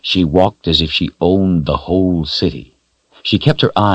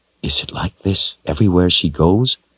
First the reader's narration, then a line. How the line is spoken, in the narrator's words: Richard whispered to Zed